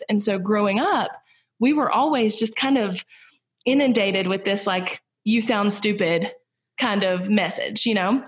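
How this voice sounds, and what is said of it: Southern American accent. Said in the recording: “They portray Southern people as stupid ... I can't fix my accent”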